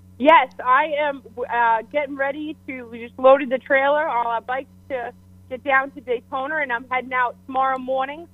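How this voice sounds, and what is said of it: Massachusetts accent. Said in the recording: “that nice accent there from Mass”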